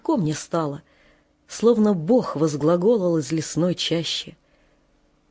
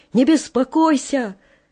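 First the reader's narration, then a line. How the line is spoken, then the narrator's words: Distant shout. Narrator (Russian): Он издали из темноты крикнул мне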